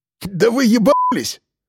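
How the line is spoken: Sudden shrill squeal. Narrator (Russian): вдруг взвизгнул Сергеич

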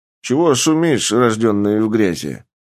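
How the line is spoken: Lazy question. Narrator (Russian): лениво спросил искаженец

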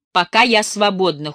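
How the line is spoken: Answered coldly. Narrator (Russian): холодно ответила

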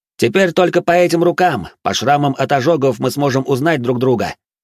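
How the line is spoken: Shout. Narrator (Russian): выкрикнул Венс

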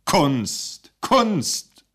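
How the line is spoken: Repeated shout. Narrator (German): rief er noch einmal

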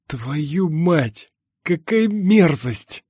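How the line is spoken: Breathless hiss. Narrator (Russian): прошипел, отдышавшись

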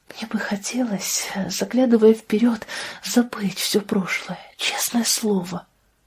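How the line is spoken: Whisper. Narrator (Russian): прошептала она наконец

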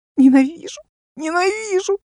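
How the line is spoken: Sobbing. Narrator (Russian): чередовала со всхлипываниями

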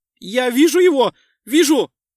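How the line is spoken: Almost shouting. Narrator (Russian): чуть ли не закричал Декс

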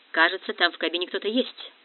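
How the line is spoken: Muttered. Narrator (Russian): пробормотал Росс

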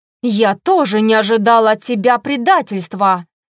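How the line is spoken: Queen barking. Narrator (Russian): рявкнула королева

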